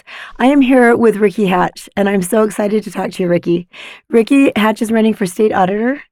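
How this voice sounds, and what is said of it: Scratchy hoarse voice. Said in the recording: “I have a little bit of laryngitis this morning ... my scratchy voice”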